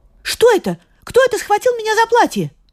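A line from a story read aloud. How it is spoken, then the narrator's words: Frightened cry. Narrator (Russian): Она испугалась и крикнула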